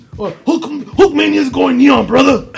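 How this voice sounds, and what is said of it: Hulk Hogan impression, borderline Macho Man. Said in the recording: “your Hogan impression ... Macho Man, not Hogan ... that was borderline Macho Man”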